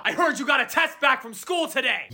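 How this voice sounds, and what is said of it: Screaming, shouting voice. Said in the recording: “why you're screaming”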